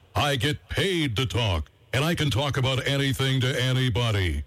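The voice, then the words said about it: Powerful professional announcer voice. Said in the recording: “I'm a professional announcer. My voice has power.”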